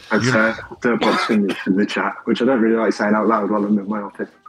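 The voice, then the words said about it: Foreign, non-American accent. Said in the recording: “You've got an accent that tells me not here.”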